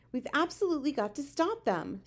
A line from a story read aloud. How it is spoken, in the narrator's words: Sophie cried